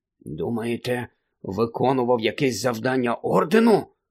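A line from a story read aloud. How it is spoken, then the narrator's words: Muttered under breath. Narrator (Ukrainian): пробурмотів підніс Рон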